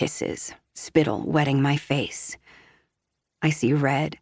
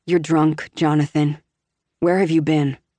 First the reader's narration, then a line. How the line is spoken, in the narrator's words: ask flatly, forcing calmness in my tone